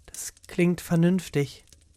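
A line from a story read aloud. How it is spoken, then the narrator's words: Quiet. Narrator (German): sagte leise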